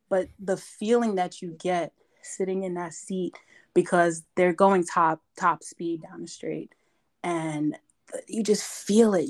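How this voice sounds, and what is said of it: Hoarse, strained voice. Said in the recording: “my voice is gone, because you know, you're yelling”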